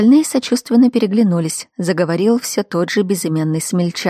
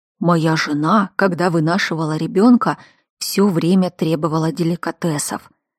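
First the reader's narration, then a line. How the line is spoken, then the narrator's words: Dramatic hissing whisper. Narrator (Russian): Один из них свистящим шепотом, полным драматизма, поделился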